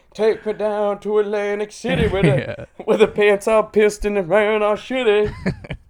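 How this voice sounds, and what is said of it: Sings imitating a famous singer's voice. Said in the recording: “doing an Elvis voice”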